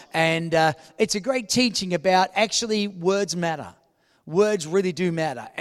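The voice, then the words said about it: Speaks with a noticeable accent. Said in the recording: “I've got an accent ... they heard my accent”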